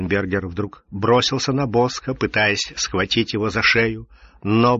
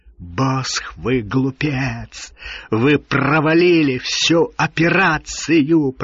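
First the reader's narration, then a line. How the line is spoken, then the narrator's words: Angry hiss. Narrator (Russian): прошипел Ролленбергер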